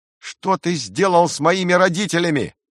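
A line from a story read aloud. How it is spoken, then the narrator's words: Boy shouting. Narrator (Russian): мальчик закричал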